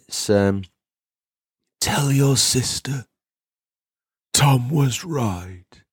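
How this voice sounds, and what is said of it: Imitates Darth Vader's voice. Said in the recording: “my Darth Vader impression ... That was me trying to do Lord Vader on the Should the Hyberians launch ramp with his helmet removed. It probably wasn't that great”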